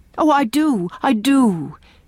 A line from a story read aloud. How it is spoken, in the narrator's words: exclaimed Leslie, with an eagerness which seemed to burst forth and beat down some restraint that had been imposed on it